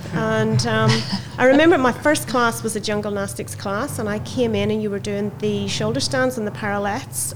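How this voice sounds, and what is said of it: Northern Irish accent. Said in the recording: “where's that accent from? ... from Belfast”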